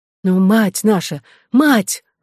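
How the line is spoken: Exclaimed. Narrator (Russian): воскликнул Эдуард

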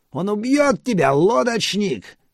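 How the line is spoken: Children screaming. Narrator (Russian): вопили гадкие дети

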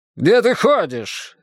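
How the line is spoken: Harsh bark. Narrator (Russian): рявкнул на Снежка Ростислав Юльевич

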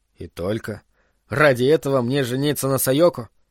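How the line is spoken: Sighing. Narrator (Russian): Такацуки вздохнул

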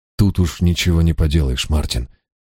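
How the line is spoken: Gentle. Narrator (Russian): мягко сказал я

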